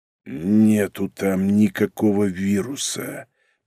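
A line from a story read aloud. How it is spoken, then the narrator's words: Angry, through teeth. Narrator (Russian): процедил, сменив растерянность на злость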